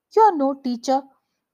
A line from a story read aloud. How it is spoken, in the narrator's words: angrily charged